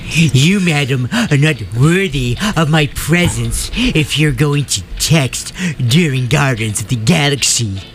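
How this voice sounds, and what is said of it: Nerdy character voice. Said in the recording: “That was his Woody Allen impression ... You sounded exactly like Woody Allen. ... my nerd ... a generic nerd who would go to the movies”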